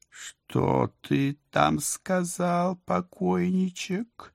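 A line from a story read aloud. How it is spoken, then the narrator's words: Slow, breathy, affected female drawl. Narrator (Russian): Нарочито, медленно, с придыханием протянул женский голос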